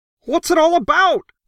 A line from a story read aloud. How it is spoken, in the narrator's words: Crockett howled